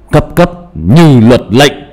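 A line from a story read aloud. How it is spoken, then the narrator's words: Sharp shout. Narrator (Vietnamese): Anh ba quát lên một tiếng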